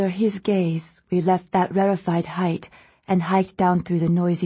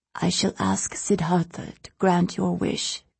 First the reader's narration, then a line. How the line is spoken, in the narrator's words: the abbess whispered in my ear